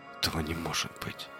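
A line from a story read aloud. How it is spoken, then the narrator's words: Whispered. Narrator (Russian): прошептал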